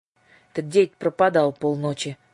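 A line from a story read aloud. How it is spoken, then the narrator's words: Sleepy question. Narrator (Russian): спросила сонным голосом Дара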